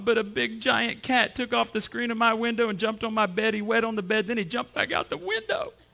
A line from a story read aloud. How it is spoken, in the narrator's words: sobbed